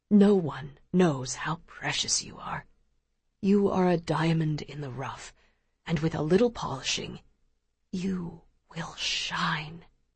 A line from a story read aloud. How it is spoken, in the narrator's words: Pa whispers softly